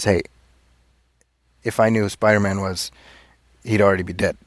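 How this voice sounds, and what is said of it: Michael Keaton impression. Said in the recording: “my Michael Keaton impression ... that sounds like kind of like Michael Keaton ... he does have like this very distinctive way of talking”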